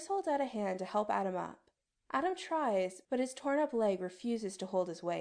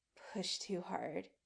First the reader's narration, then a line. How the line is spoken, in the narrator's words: he mutters